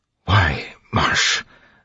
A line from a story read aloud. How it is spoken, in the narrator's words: Sazed whispered